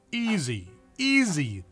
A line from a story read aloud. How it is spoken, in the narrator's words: the doctor exclaimed